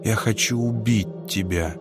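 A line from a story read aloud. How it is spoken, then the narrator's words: Quiet. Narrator (Russian): тихо сказал Луи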